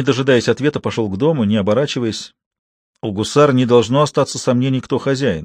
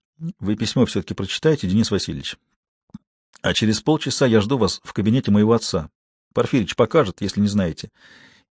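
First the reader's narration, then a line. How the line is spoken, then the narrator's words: Low, not overheard. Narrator (Russian): негромко, чтобы никто не слышал, произнес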